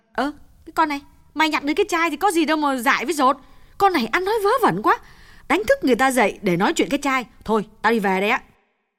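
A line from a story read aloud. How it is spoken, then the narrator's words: Impatient snapping. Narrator (Vietnamese): Như nôn nóng gắt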